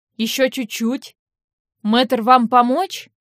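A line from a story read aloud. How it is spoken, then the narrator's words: Voice from behind. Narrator (Russian): Голос за спинами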